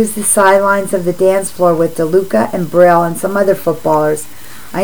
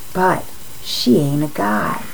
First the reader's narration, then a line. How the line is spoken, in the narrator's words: says almost in a whisper